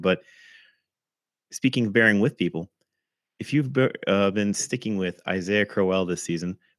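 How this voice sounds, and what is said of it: Lower, throaty voice. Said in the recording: “my voice may sound even lower than normal. I got a little something in my throat”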